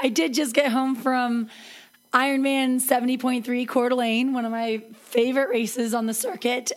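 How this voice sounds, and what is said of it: Noticeably affected, strained voice. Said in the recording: “my voice is going to give me away here a little bit... I'm not sick... maybe an allergy or something, or maybe I just breathe too hard while I run”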